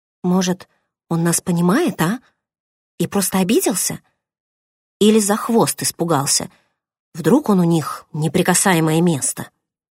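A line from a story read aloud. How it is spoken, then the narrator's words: Uncertain mutter. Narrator (Russian): неуверенно пробормотала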